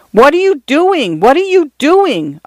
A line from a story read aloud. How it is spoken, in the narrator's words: Arthur cried